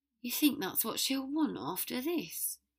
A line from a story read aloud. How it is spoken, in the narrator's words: he asked wearily